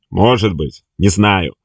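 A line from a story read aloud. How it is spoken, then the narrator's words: Stranger's joyless laugh. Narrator (Russian): невесело засмеялся незнакомец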